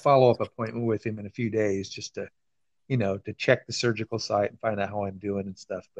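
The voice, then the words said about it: Slightly hoarse voice. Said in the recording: “as you can probably tell, I'm a little hoarse, and I think that might be from the intubation”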